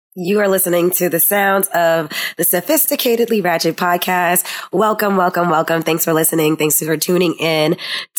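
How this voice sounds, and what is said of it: Raspy, hoarse voice. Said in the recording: “my raspy voice right now ... If you hear me cough, I have asthma”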